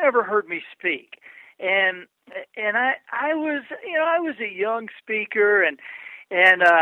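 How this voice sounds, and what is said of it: Usual voice. Nothing is said of it.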